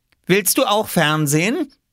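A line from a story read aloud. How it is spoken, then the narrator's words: Loud question. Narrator (German): fragte Oskar so laut, dass auch Mama es hören musste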